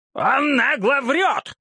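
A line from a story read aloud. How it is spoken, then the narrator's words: Shouted in unison. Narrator (Russian): крикнули оба в один голос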